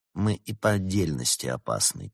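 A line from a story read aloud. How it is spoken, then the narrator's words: Quiet remark. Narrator (Russian): тихо заметил Улисс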